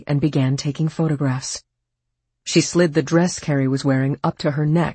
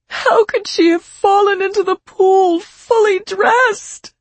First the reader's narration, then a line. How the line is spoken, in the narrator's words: Fran wailed